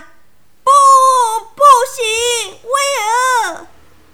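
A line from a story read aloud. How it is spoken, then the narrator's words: Shouting. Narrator (Chinese): 盖伊大叫了出来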